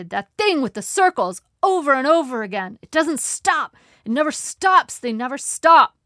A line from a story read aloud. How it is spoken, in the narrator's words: he shouted